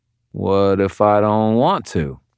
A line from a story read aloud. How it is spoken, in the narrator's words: I drawled